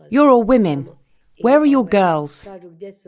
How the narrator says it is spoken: they're shouting

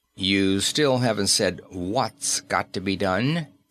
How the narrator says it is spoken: answered the engineer coldly

